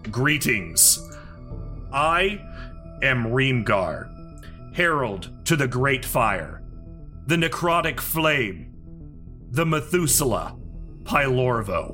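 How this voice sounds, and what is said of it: Booming character voice. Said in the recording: “in a booming voice”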